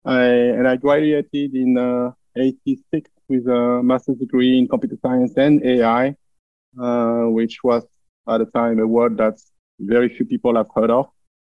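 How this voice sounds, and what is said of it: French accent in English. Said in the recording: “I grew up in France, as probably my accent makes obvious”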